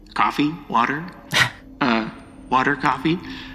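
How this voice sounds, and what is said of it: Creepy character voice. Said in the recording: “a very creepy voice”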